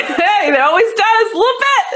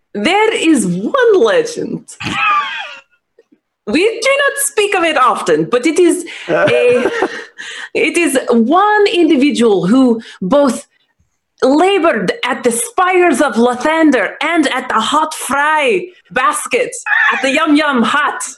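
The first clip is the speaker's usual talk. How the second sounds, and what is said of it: Fantasy accent, slightly Scottish. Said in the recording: “That's a little Scottish. ... It's a mix. It's a mix. It's a fantasy accent”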